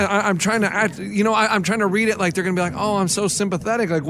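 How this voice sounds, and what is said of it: Usual voice. Nothing is said of it.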